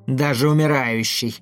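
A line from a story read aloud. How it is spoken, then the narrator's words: Creature's hoarse wheeze. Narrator (Russian): прохрипело существо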